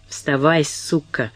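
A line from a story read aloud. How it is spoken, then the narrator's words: Hiss. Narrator (Russian): прошипел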